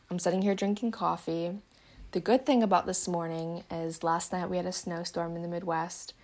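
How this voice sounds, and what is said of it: Somewhat raspy voice. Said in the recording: “my voice is kind of raspy.”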